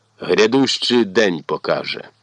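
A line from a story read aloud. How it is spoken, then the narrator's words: Just grumbled. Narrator (Ukrainian): Лиш буркнув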